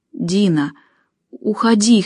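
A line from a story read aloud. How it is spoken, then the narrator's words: Hoarse. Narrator (Russian): хрипло произнес Нико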